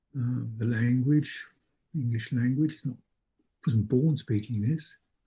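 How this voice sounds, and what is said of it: British accent. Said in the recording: “The accent is British accent. It's not mine.”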